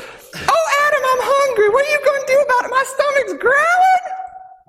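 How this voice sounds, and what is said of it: Imitated voice of Eve, a woman. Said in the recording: “my very perfect impression of Eve”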